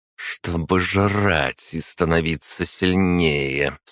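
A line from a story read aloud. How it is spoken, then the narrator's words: Answer through gritted teeth. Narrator (Russian): сквозь зубы ответила Агата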